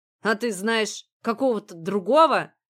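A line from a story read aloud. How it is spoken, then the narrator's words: Angry retort. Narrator (Russian): зло бросил муж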